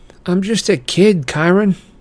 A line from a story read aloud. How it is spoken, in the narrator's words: I said miserably